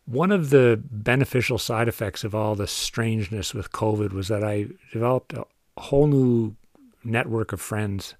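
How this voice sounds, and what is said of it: Cape Breton accent. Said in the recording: “my unfortunate Cape Breton accent.”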